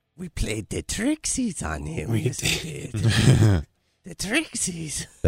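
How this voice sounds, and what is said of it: Creepy Gollum-like character voice. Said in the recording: “That's a pretty creepy voice. ... It's like a horrible impression of Gollum.”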